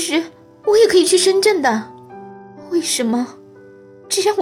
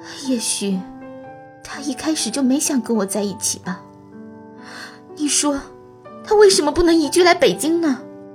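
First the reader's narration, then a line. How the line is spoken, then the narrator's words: Tearful murmur. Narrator (Chinese): 丛小姐，悠长而清晰的回忆让她泪眼婆娑，但她忍了一忍，嘴里喃喃地说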